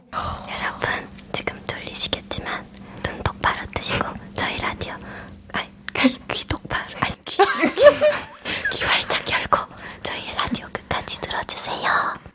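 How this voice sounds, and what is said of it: Soft, slow ASMR-style whisper. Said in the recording (Korean): “평소에 말투가 좀 나긋나긋하고 좀 느리다는 ... ASMR을 한번”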